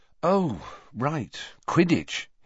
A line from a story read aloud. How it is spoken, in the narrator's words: he said, running a hand wearily through his hair